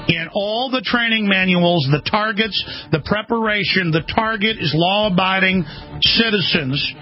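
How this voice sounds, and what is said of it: Very slow, deliberate speech. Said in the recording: “say this very slowly for everyone ... I'm going to say it very slowly.”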